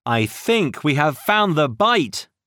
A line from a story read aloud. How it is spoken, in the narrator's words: he shouted